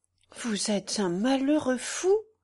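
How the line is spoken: Soft. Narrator (French): dit-elle doucement

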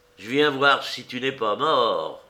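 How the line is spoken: Man sneering. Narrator (French): ricana l'homme noir

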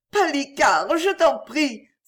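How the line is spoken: Tearful cry. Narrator (French): s'écria Perrine éplorée

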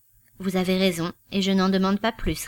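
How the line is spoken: Curt. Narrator (French): répondit sèchement Goodwood

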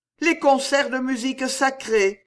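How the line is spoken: Regretful exclamation. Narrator (French): s'écria-t-elle avec une expression de regret

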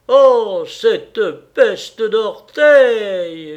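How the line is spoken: Patient groaning. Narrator (French): gémit le patient

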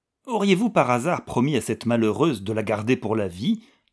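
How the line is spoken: Harsh question. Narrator (French): demanda Frau von Treumann d'un ton fort âpre

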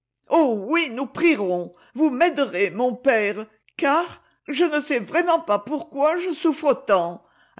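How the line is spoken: Finishing with a slight sob. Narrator (French): acheva-t-elle dans un léger sanglot

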